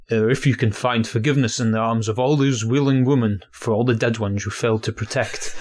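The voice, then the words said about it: Half Yorkshire accent impression. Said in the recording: “I tried working my kind of half Yorkshire accent.”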